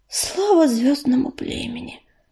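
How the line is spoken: Queen whispering. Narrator (Russian): прошептала королева

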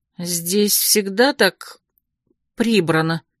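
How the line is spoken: Confused question. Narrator (Russian): растерянно спросила я Цвака

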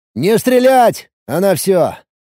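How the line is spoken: Shouting over radio. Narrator (Russian): крикнул по рации напарникам

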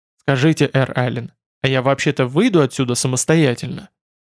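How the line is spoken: Smirking grunt. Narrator (Russian): хмыкнул Арн

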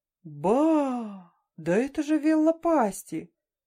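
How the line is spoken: Joyful, surprised exclamation. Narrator (Russian): Радостно и одновременно удивленно воскликнул капитан Ларни

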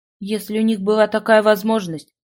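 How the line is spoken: Gloomy reminder. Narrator (Russian): мрачно напомнил ему Шана

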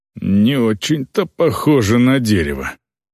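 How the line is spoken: Grumbled. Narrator (Russian): проворчал Сайват

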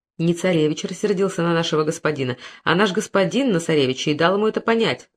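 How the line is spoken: Plain. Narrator (Russian): ответил Пентаур

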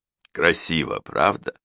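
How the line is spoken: Murmuring. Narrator (Russian): пробормотал

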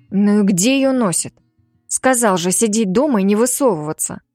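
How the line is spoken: Irritated muttering. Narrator (Russian): Раздраженно бормочу

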